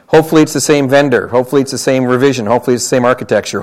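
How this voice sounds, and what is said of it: Canadian accent. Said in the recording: “In case you can't tell from my accent, I'm Canadian, not American, Canadian.”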